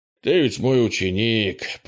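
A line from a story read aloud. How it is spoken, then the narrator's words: Grumbled. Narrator (Russian): проворчал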